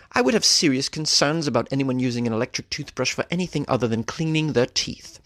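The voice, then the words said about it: Put-on British accent. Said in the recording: “Do you like the accent? Should I keep going? ... it's fun to say with a British accent”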